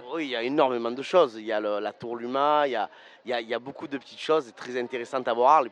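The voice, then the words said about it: Southern French accent. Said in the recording (French): “Dites un accent, tu viens du Sud ?”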